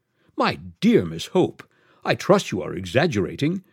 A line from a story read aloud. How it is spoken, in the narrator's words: exclaimed the Quabarls in unison